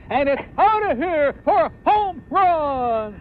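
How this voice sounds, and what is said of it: Overacted, melodramatic sports announcer call. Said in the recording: “Was he overacting? ... phony ... Melodramatic calls.”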